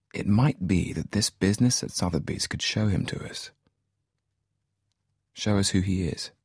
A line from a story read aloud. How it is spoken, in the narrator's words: He said quietly